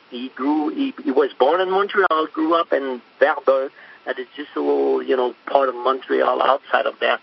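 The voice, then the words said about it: Strong French accent. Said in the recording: “I have a stronger French accent than him”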